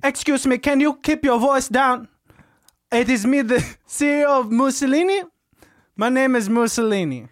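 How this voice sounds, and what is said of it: Put-on Italian accent. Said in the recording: “You sound like fucking Mario. ... It is offensive when you are commenting on my accent.”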